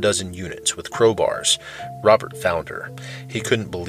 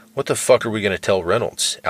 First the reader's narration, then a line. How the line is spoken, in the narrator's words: Allison sighed